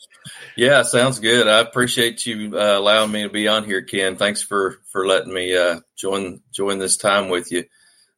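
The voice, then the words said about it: Arkansas accent. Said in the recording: “My accent probably gives me away. I'm a mostly native guy from Arkansas.”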